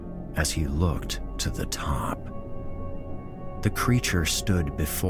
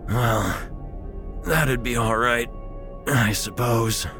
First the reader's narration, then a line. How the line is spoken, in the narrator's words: he wheezed